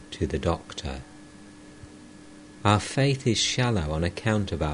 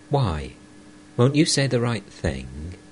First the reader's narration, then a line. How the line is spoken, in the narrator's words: Master sharply